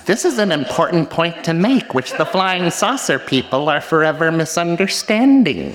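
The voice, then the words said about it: Imitates another person's voice. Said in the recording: “do I do the Terry voice?”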